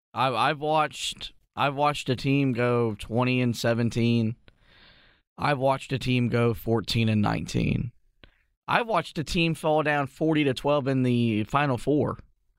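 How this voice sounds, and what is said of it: Strained, worn-out voice. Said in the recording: “you can tell by the voice, the way my voice is.”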